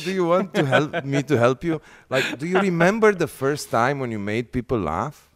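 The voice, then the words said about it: Russian accent. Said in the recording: “Your Russian accent, man. Yes. I love it.”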